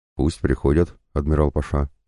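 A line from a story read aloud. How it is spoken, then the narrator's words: Quiet. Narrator (Russian): сказала она тихо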